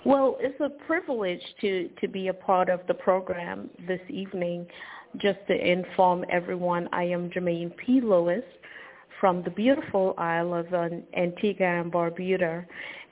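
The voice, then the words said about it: Slight accent with American influence. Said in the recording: “you may hear a little accent. I lived overseas for many years, so you'll hear a little of the American accent.”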